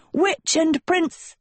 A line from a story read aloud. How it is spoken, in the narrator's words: shouted